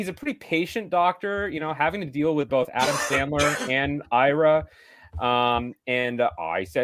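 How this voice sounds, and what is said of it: Usual voice. Nothing is said of it.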